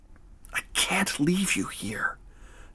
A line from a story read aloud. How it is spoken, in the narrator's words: Noah whispered back